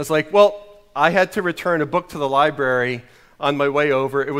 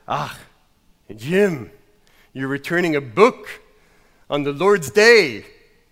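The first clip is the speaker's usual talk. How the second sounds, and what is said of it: Bad put-on Scottish accent. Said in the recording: “my Scottish accent is horrible, but you're not going to stop me from using it. I'm going to keep going with my Scottish accent”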